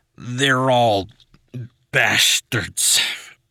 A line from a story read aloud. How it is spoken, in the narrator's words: he slurred